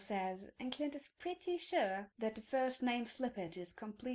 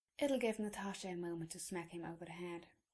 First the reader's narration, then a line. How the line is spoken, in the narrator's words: he says quietly